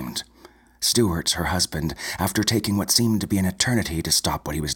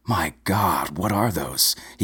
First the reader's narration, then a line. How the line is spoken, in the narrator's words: he gasped